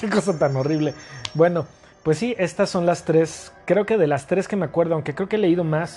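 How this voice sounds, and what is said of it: Usual voice. Nothing is said of it.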